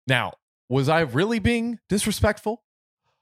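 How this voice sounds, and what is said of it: Usual voice. Nothing is said of it.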